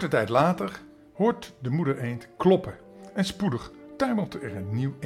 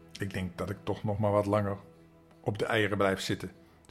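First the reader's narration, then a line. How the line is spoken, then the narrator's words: Plain. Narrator (Dutch): zei moeder eend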